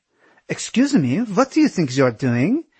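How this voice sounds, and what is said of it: Thick French accent, demanding tone. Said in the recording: “she demanded in her thick French accent.”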